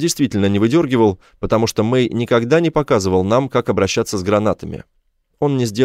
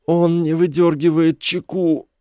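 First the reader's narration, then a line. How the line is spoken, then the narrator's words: Groan. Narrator (Russian): Мэй застонал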